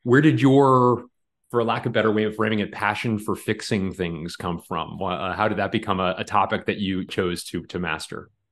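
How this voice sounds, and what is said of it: Smooth, soothing radio-style voice. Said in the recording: “you have such a great radio voice that I'm just being lulled into listening to you talk”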